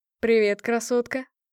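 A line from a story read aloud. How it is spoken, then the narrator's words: Wry snort. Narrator (Russian): хмыкнул один из них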